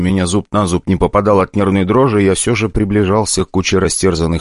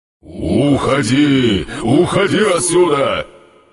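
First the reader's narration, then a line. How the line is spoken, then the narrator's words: Growling demon sensing danger. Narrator (Russian): Демон рычал, словно чувствовал опасность самому себе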